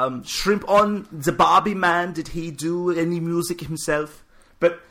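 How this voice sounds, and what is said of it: Usual voice. Nothing is said of it.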